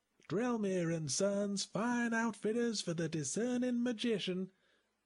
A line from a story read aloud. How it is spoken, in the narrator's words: he was shouting, his voice barely carrying over the hubbub